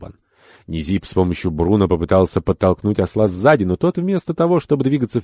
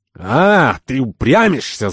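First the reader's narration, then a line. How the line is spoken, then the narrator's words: Angry shout. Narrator (Russian): закричал торговец, раздражаясь уже всерьез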